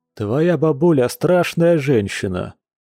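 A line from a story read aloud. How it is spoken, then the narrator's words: Gloomy. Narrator (Russian): мрачно произнес один из стоящих близнецов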